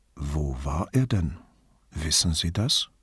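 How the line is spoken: Gentle, as to a child. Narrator (German): fragte Vianello sanft wie zu einem kleinen Mädchen

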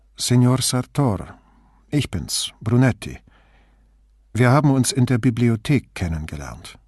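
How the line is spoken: Calm. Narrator (German): sagte ruhig

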